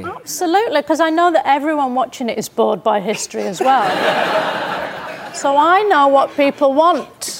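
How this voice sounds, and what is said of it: Flat, depressing-sounding accent. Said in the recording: “my own accent because it's so flat and depressing”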